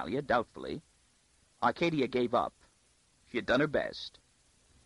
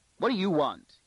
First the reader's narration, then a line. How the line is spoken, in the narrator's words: he snapped